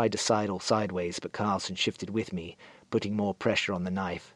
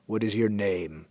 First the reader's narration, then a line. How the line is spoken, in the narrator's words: rumbled the lead rider, spittle flecking his lips